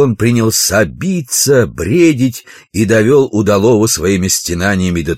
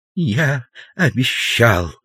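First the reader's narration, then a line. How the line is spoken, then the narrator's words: Weak voice. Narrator (Russian): слабым голосом повторил профессор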